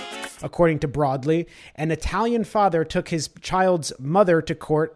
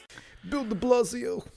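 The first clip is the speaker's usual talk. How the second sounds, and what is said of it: Put-on New York accent. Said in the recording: “Is that your New York accent?”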